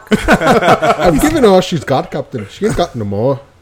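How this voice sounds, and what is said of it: Scotty impression, decent. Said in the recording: “My Scotty is incredible... That wasn't bad. That wasn't the best one I've ever heard... You've been practicing in the car”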